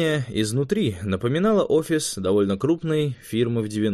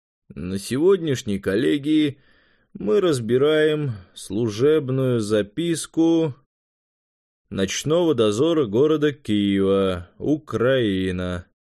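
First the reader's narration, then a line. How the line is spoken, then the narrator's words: Bored, official. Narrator (Russian): скучным голосом начал председатель, незнакомый швед-инквизитор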